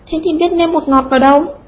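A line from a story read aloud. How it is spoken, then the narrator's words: Laughing. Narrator (Vietnamese): Quý Giòm bật cười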